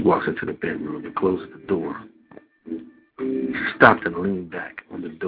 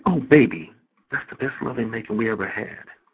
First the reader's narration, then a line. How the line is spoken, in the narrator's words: she exclaims, she says